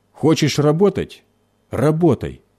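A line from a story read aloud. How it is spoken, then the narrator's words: Angry grumble. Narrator (Russian): сердито проворчал он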